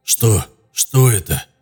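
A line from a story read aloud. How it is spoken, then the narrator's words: Chilled mumbling. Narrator (Russian): забормотал, отчего-то охваченный внезапным ознобом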